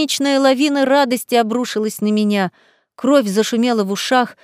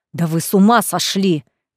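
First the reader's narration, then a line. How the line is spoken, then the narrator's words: Growled. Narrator (Russian): прорычал Реймонд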